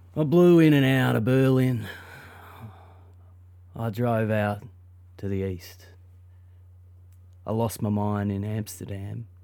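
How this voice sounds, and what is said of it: Thick put-on Australian accent. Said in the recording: “I'll do it in a thick Aussie accent.”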